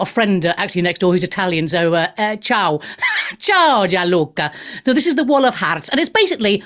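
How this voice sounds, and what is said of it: Usual voice. Nothing is said of it.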